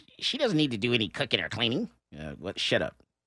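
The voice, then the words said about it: Imitates another person's voice. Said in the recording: “your impression of your ... sister?”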